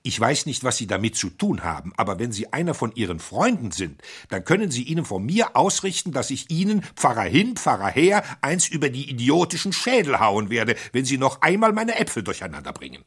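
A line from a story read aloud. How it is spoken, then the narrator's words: Angry forced words. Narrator (German): brachte er wütend die Worte hervor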